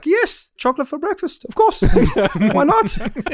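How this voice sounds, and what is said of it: Poor put-on Dutch accent. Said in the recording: “butchering any sort of Dutch accent.”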